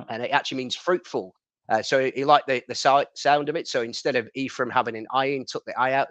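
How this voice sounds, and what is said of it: Northern English accent. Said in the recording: “having obviously a northern accent”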